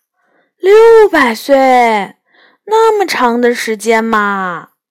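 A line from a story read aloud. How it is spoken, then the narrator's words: Exclaiming in wonder. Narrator (Chinese): 我不禁感叹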